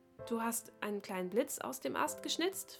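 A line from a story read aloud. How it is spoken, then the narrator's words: Soft question. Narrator (German): fragte sie leise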